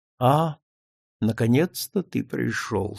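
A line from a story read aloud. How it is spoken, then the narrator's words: Quiet. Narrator (Russian): сказал он тихо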